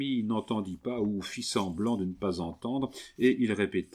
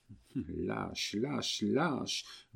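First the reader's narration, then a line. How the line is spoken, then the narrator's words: Low muffled murmur. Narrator (French): murmura sourdement Suzanne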